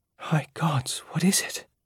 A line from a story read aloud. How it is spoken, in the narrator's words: Jaya whispered